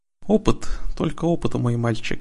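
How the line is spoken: Sighing. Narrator (Russian): вздохнул Тиран

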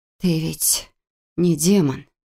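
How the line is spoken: Breathless, pained, tearful. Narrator (Russian): выдохнула я, а от боли из уголков глаз потекли слезы

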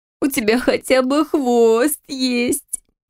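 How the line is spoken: Sobbing woman. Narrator (Russian): всхлипнула подруга

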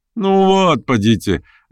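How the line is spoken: Laughing. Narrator (Russian): рассмеялся Петр Степанович

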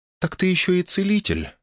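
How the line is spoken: Calm. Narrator (Russian): произнесла она спокойно

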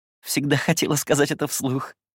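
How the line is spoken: Laughing. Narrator (Russian): рассмеялась

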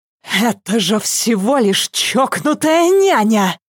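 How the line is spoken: Hissing. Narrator (Russian): зашипела Вика

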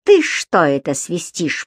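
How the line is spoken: Growled. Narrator (Russian): прорычал он

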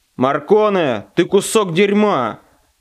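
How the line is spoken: Barked. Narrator (Russian): рявкнул федерал

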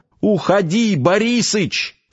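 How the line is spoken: Shouted reply. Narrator (Russian): прокричал он в ответ

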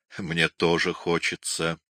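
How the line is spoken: Mumbling. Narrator (Russian): Микеланджело бормотал

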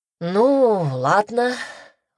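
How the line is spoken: Exhaled words. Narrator (Russian): выдохнул Андрей

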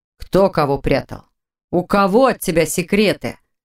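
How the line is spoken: Growled. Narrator (Russian): Зарычал Непогодин

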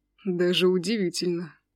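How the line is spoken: Sighing. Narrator (Russian): вздохнул Аджим

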